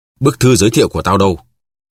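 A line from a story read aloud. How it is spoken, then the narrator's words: Roaring. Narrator (Vietnamese): D'Artagnan gầm lên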